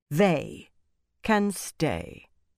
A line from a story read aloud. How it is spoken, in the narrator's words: Elaine said coldly